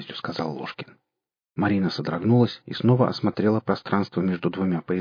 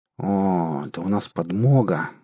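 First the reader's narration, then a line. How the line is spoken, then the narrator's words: Spiteful hiss through teeth. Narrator (Russian): злобно процедил Лушкин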